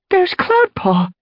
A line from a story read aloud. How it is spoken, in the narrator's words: Princess exclaimed delightedly